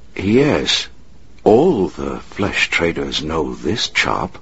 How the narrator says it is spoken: Rama said quietly

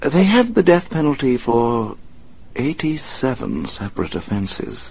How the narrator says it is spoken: Alfred said quietly

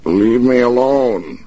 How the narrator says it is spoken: he shouted, but the shout came out a whine, low-pitched and weak

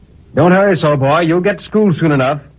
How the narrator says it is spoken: the blacksmith cried to me

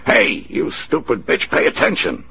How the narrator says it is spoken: Horton snapped

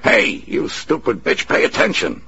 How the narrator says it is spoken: Horton snapped

